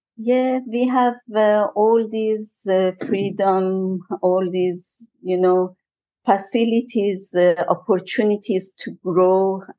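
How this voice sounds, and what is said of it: Strong foreign accent in English. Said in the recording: “still quite um, quite strong... still I kept my accent.”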